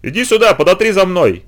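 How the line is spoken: Tearful shouting. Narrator (Russian): кричал он уже со слезами

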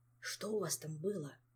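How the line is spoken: Hushed question. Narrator (Russian): вполголоса спросил он

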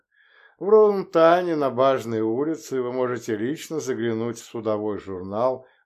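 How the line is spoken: Lazy drawl. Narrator (Russian): лениво протянул адмирал Кияк

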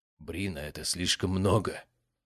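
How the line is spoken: Quiet. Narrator (Russian): тихо сказал Альфред Синкроф

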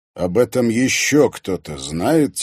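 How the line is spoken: Quiet question. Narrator (Russian): тихо спросил Зверев-старший

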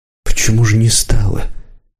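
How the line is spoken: Quiet question. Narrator (Russian): тихо спросил Рысюк

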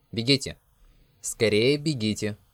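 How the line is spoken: Loud. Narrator (Russian): он громко сказал

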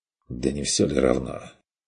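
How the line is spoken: Muttering aloud. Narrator (Russian): Пробормотал он вслух

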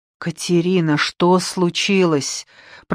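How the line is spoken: Muffled mutter. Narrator (Russian): пробормотал мне в волосы

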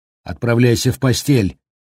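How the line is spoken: Fearful, vicious shout. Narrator (Russian): прикрикнула, от страха голос ее стал окончательно злобным

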